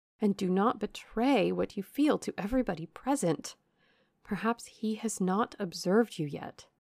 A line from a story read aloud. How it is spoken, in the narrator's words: cried Eleanor